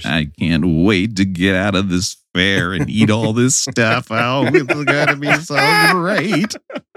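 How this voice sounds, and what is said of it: Imitates another person's voice. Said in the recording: “do your Paul Lynn impression. You do a better one than I do.”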